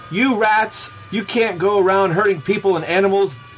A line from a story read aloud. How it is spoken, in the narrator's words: he shouted at the gang